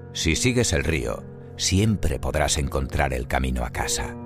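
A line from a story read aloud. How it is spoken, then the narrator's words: Plain. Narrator (Spanish): contestó Henry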